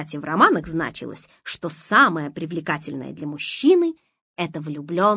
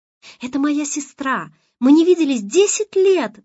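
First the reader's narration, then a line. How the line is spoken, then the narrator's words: Excited woman explaining. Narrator (Russian): взволнованно объясняла она Олегу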